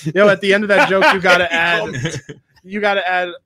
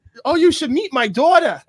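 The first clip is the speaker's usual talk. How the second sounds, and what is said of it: Put-on Jewish accent. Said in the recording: “do a Jewish accent”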